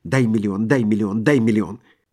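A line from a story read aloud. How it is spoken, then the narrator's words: Beggar's rapid mumbling. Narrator (Russian): нищий быстро забормотал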